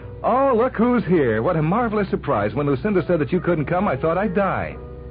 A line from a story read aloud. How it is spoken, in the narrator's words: she began to scream